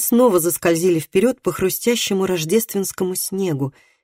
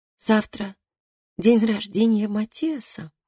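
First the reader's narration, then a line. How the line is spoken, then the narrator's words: Sleepy. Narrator (Russian): сонно сказала Габриэла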